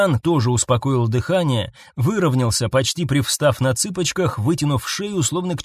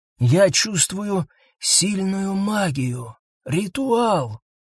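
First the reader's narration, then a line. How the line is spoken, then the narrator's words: Whispered. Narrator (Russian): прошептал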